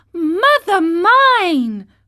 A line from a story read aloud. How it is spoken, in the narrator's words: cried the marionette, scared to death